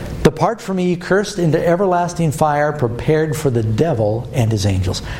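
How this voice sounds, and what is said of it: Usual voice. Nothing is said of it.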